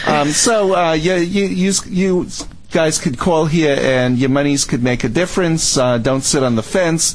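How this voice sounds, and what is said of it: Strong regional accent. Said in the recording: “Call to stop the accent ... I grew up talking like this ... they wanted me to stop talking like this”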